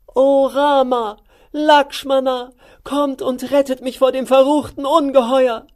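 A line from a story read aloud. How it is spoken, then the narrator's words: Scream. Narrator (German): Sita schrie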